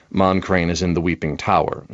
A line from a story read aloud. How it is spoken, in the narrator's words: said Alondo